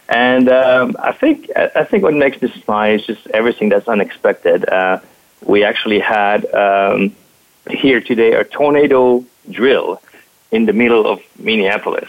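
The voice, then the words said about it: French accent in English. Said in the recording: “you can hear from accent, I'm actually French”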